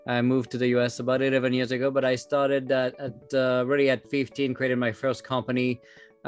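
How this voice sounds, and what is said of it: French accent in English. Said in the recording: “I started back in France, as you can tell with my accent.”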